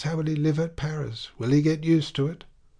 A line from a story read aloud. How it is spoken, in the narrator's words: Madame Bovary sighed